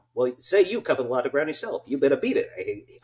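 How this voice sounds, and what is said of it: Groucho Marx impression. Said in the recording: “did a Groucho Marx impression ... It won't be as good as when I was 8”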